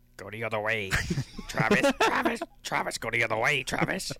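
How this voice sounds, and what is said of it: Kermit the Frog character voice. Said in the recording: “in your Kermit voice ... Kermit the Frog here ... my Kermit voice”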